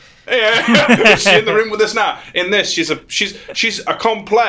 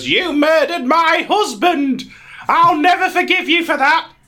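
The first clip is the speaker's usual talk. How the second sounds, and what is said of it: Speaks in a different character voice. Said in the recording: “in a different voice”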